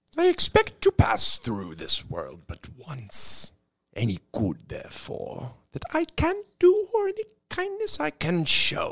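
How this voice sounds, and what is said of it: Dracula-style Transylvanian vampire voice. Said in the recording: “easy, Dracula. I didn't say do it in a Transylvanian bloodsucker voice.”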